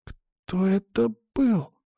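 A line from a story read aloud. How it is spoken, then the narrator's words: Whispered question. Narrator (Russian): шепотом спросил мальчик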